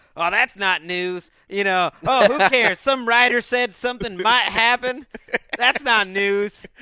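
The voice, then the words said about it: Southern bumpkin voice imitation. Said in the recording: “southern bumpkin ... I'm only imitating Damashek's imitation”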